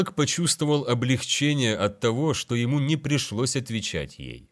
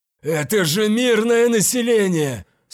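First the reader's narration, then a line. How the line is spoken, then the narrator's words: Hoarse voice over gunfire. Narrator (Russian): Сквозь грохот выстрелов, крики и вибрацию двигателей Тейлок услышал хриплый голос Альвада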